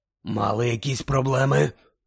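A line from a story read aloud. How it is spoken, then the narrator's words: Hoarse rasp. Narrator (Ukrainian): прохрипів Муді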